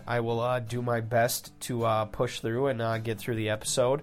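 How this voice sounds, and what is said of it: Congested, nasal sick-sounding voice. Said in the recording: “bedroom voice ... caught some sort of a wicked sinus thing, so I do apologize for sounding a little bit under the weather”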